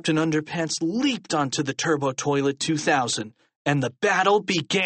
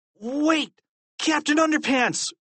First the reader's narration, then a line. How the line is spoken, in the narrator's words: cried George